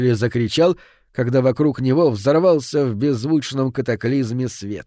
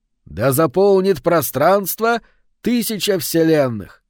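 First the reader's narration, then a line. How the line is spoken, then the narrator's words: Shout. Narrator (Russian): крикнул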